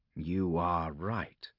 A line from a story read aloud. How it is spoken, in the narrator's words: said Covenant softly